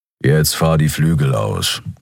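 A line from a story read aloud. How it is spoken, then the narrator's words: Growl. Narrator (German): knurrte Keru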